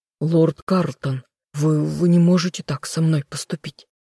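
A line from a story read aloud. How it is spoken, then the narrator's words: Strained mutter. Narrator (Russian): Надрывно пробормотал он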